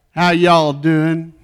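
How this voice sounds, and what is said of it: Put-on country western accent. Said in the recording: “your best country western version accent”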